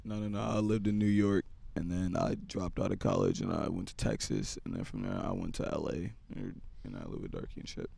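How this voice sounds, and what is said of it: Hoarse, nearly lost voice. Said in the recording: “This is fucked up. My voice is gone”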